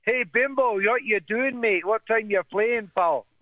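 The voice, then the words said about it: Put-on Scottish accent. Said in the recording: “in their Scottish accent... With the accent and everything”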